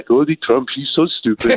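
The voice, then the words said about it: Put-on German accent. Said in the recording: “outstanding impressions ... That was my German impression.”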